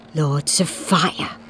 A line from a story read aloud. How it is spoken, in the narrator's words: he muttered